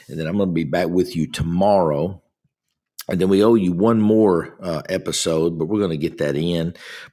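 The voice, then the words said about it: Hoarse, congested voice. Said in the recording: “I've got a little bit of a frog in my throat, had a little bit of congestion stuff”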